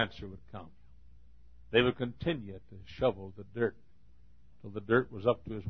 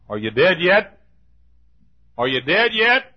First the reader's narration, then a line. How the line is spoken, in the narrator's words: And they would shout